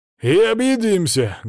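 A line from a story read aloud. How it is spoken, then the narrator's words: Loud. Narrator (Russian): громко добавил Свари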